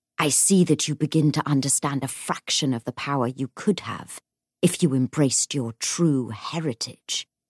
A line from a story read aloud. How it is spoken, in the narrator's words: he whispered